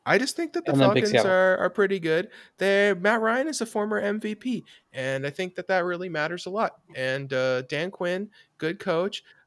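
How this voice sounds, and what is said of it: Imitates another person's voice. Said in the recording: “I'm gonna do an ... impression then ... That was solid. That's pretty close.”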